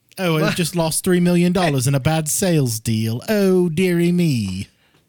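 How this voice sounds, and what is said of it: Put-on British accent. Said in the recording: “Accents just make everything better ... But then there's other British accents too, or English accents”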